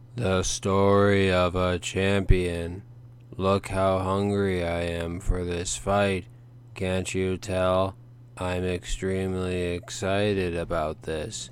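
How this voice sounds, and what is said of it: Flat, sedated monotone like Tina. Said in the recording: “your impression of Tina from frickin' Bob's Burgers ... did you overdose on Valium before you recorded this?”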